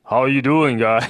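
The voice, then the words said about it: Deep bellowing voice impression. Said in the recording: “deep bellowing ... That's a pretty good impression ... impersonation”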